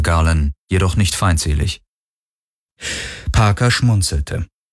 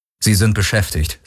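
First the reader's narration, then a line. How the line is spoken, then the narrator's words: Plain. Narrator (German): sagte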